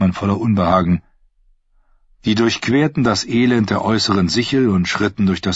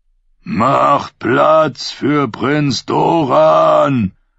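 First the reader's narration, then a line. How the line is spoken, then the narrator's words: Booming roar. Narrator (German): brüllte Areohota dröhnend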